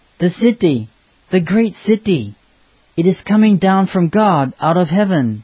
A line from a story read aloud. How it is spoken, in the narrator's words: We cried out